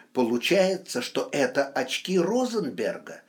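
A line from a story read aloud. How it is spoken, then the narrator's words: Excited, disbelieving speech. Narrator (Russian): еще не веря в свою догадку, взволнованно проговорил Стас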